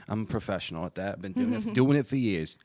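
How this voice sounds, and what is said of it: Put-on accent. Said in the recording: “There's my accent of the day.”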